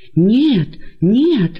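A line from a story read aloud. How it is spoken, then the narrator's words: Many voices exclaiming. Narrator (Russian): воскликнули многие из них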